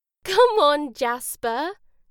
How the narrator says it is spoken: Jenny laughed

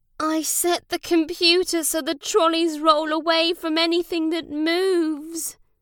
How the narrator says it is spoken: said Ollie sadly

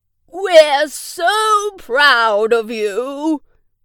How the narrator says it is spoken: great-granddad yelled

